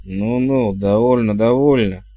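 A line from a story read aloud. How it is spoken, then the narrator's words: Impatient mutter. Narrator (Russian): Нетерпеливо буркнул герцог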